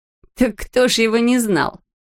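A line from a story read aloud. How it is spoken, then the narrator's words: Laughing. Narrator (Russian): засмеялась Френ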